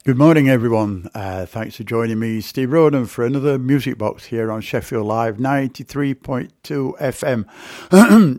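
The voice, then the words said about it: Croaky, slightly sore-throated voice. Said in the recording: “my voice sounds a little croaky at times ... my throat's still a little sore ... if you hear funny sounds, it's me”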